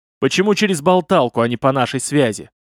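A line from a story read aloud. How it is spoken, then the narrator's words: Stern bark. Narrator (Russian): сурово рявкнул глава лиги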